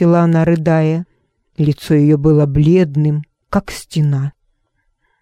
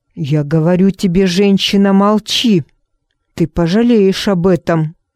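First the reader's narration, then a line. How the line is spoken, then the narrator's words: Angry hiss. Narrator (Russian): со злостью шипел Джон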